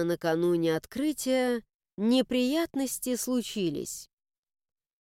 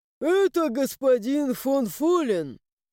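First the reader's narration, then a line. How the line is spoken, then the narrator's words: Answered with a sigh. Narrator (Russian): ответил мне Луиш и вздохнул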